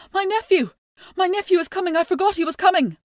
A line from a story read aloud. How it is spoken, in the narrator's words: Cahor Mac Nessa screamed